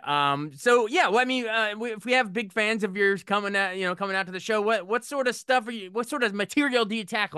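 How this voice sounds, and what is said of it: Radio announcer voice. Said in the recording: “I love your voice. It's cracking me up. It's a radio voice.”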